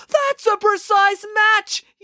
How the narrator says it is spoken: yelled Animesh

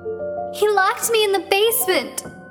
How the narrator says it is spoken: sobbed

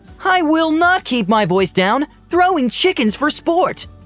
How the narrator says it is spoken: She shouted

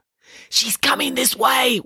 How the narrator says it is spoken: whispered Nanny Piggins

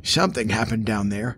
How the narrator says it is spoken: Jonah said to himself, his voice raspy from long disuse

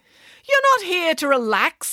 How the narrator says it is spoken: snapped

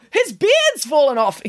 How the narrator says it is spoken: exclaimed Nanny Piggins

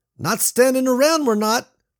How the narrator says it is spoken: Nicole shouted

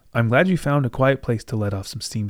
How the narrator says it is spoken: she said

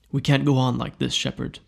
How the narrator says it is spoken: Bernard says

